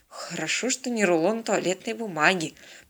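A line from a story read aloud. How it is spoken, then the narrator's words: Grumbling mutter. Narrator (Russian): проворчал под нос Станислав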